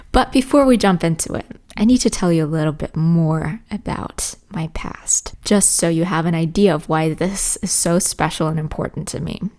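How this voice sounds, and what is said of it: Americanized English accent, not native. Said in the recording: “my speech or accent or however you want to call it is quite Americanized ... I'm not saying I have the perfect American accent. ... you can definitely hear a little bit of inspiration from the US”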